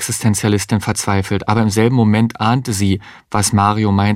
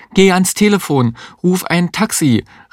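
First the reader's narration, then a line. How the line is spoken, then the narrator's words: Call. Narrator (German): rief die Existenzialistin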